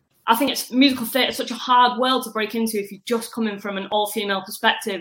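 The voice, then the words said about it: Northwest English (Manchester) accent. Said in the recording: “a bit of a northwestern twang ... I'm from Manchester.”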